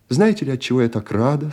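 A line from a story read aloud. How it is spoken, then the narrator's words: Plain. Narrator (Russian): сказала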